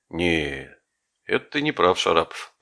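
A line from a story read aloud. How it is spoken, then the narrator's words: Drawled. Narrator (Russian): протянул Глеб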